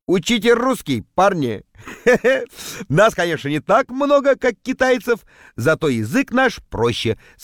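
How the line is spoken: Laughing. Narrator (Russian): смеялся

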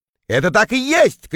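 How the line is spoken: Shout. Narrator (Russian): крикнул я

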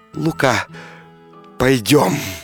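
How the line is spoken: Tender quiet whisper. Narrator (Russian): купчиха мгновенно вспыхнула огнем и прошептала нежно, тихо

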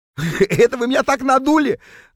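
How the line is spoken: Guffawing on realization. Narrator (Russian): захохотал Норберт, когда наконец понял, в чем дело

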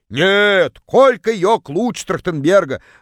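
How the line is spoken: Woman yelling from far corner. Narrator (Russian): Заорала одна из них из самого дальнего угла

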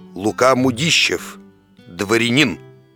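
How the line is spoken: Hoarse drunken bass. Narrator (Russian): дородный, видный господин и прохрипел пропитым басом

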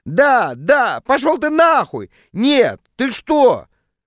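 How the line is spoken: Exclaiming. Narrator (Russian): воскликнула

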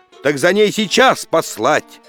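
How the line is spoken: Angry exclamation. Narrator (Russian): восклицает царь Никита, брови сдвинувши сердито

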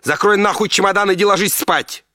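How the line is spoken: Shouting. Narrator (Russian): закричала жена

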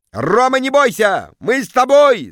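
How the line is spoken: Crowd yelling. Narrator (Russian): завопили в зале

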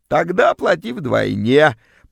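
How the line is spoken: Creaky grating voice. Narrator (Russian): проскрипела вымогательница

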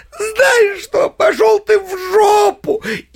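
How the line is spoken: Shouted. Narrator (Russian): как закричит

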